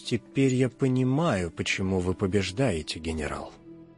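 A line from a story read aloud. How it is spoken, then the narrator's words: Quiet. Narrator (Russian): Музыкант тихо произнес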